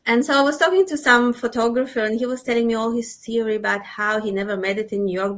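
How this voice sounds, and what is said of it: Mixed Russian-Israeli accent. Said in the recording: “my accent's so weird, it's not Israeli, it's not Russian, it's a mixture, it's not Australian, obviously. People never know where I'm from.”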